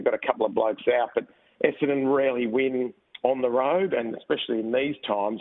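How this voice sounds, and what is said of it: Slightly hoarse, recovering voice. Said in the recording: “you'd lost your voice ... I did actually lose my voice. You can probably just sense it a little bit as well. It's just only coming back.”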